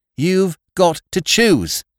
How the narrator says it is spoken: cried the girls

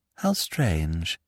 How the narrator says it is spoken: sighed Miss Peavy

